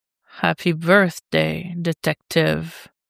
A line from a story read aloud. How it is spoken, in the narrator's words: Ra purrs